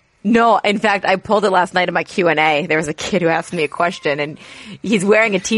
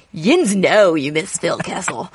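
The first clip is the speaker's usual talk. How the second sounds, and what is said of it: Put-on Western Pennsylvania accent. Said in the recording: “the Western PA accent”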